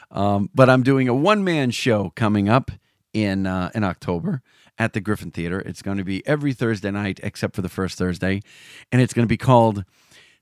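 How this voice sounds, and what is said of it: Hoarse, flat, deeper than usual voice. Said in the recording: “I'm a little hoarse. I had a couple cocktails and I was laughing and joking with some people at the party. So I'm a little flat ... I sound a little flat. My voice is much deeper tonight than it usually is.”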